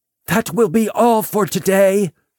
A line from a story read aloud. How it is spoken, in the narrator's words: shouted